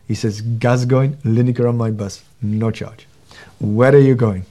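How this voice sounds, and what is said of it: Imitated Indian accent. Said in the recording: “little Indian driver ... do forgive me for the accent, but he did talk something like that”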